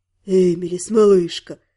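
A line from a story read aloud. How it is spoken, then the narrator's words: Breathless exhale. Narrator (Russian): выдохнул Рид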